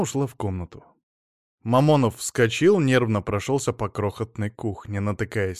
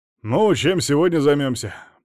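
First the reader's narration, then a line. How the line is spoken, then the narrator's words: Overly cheerful, mouth full. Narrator (Russian): преувеличенно бодро спросил, поглощая пышный омлет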